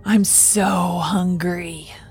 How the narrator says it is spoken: hissed

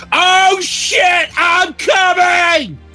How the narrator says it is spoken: He screamed

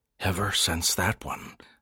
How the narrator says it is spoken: Landon repeated softly

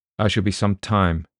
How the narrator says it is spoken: he told Briggs in a hostile voice

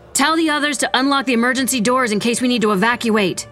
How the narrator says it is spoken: Vera shouted

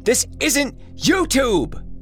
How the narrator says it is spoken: Jesse shouted after him

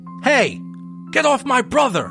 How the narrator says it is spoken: Connor shouted

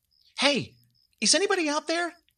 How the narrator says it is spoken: Amber shouted into the darkness, unprompted

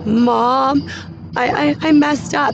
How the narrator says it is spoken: she's sobbing and crying

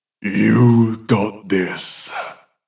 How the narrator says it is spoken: the voice growls

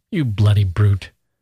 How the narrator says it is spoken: Gusev said angrily

